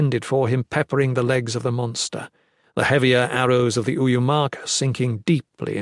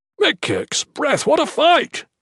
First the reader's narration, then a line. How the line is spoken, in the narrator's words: exclaimed